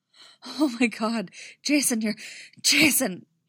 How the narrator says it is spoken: he gasps, trembling all over

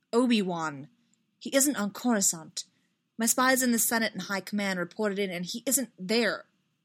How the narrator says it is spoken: Amidala snapped

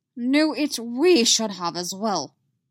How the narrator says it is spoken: Yoda snaps

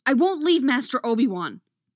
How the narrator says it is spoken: Anakin snaps

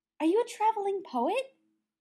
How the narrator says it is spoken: Brendan asked eagerly

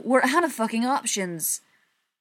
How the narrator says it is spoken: Pete exclaimed

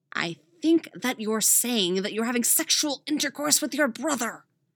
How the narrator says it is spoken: Dick hisses

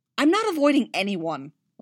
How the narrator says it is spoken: Leia snapped

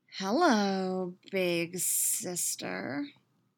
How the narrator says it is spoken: she drawls, a sick smirk on her lips

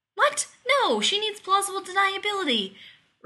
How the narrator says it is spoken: Rodney spluttered

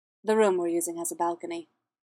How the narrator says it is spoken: Captain Kenobi said, taking up smoothly where the Queen had left off

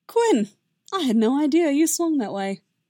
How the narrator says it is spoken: Obi-Wan said, and laughing

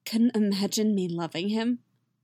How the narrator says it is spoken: Yennefer asks, her voice tight and a little bitter

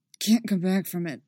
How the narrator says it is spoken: says through gritted teeth

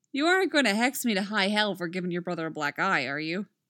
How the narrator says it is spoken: Roy asks

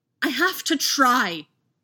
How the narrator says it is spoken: Anakin yelled

